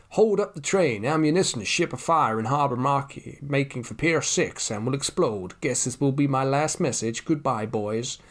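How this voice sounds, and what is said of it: Shifting mix of put-on accents. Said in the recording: “don't know what accent there was. I think it was maybe about four different accents in a row. Ended a little bit like Kevin Spacey. I thought it sounded a bit like Kevin Spacey in House of Cards.”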